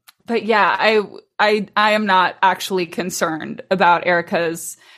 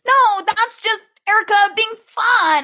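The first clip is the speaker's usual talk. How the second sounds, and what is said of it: Imitates another person's voice. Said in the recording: “that impression. ... that's such a good impression.”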